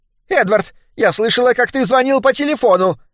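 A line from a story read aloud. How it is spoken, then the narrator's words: Shrill. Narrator (Russian): начала она визгливо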